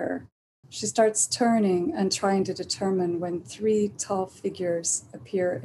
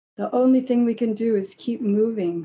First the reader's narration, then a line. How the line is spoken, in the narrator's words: says Silver